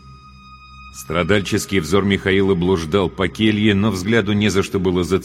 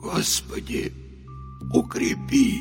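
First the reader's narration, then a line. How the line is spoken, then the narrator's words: Barely audible whimpering mutter. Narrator (Russian): Едва слышно пробормотал Михаил, с омерзением ощущая, как его голос срывается на жалобное поскуливание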